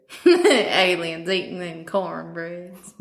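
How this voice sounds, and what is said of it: Put-on Southern drawl. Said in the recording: “That's what I get for growing up in the South. I can do the drawl, I guess.”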